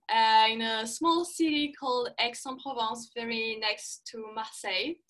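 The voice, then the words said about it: Strong French accent. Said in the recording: “people are going to hear the accent ... I grew up in south of France. Strong accent, I know.”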